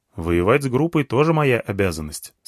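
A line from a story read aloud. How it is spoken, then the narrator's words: Plain. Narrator (Russian): сказал я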